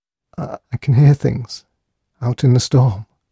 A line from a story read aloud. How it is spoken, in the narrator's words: whispered O'Keefe faintly